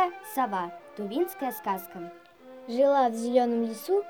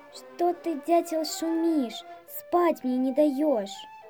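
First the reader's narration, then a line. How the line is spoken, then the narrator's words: Sleepy owl question. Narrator (Russian): Проснулась сова, спросила сонным голосом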